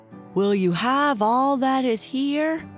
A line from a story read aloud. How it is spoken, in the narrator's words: called out as loud as he could